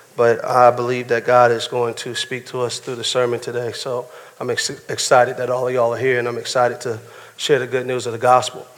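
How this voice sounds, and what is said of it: Strained, failing voice. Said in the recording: “My voice is trying to fail me, and my ear is plugged up”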